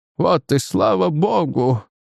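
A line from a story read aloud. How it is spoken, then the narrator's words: Sighing. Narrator (Russian): вздохнул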